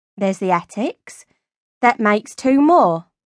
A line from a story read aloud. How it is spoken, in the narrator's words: Olive pointed out calmly